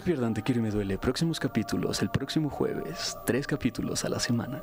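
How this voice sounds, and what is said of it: Commercial radio announcer voice. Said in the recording (Spanish): “voz de locutor ... échate una locución comercial”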